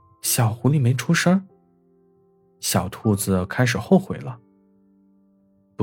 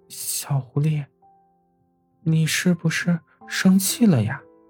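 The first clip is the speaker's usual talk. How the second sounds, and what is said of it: Quiet, soft-spoken question. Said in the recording (Chinese): “小声的问道”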